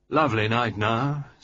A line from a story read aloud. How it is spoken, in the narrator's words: said Sir George